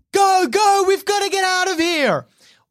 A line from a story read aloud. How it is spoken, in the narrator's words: Oliver screams at the kids